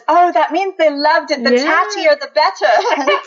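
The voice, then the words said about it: Bad put-on Australian accent. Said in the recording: “That's a really bad Australian accent.”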